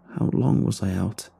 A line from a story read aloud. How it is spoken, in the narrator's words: I mumbled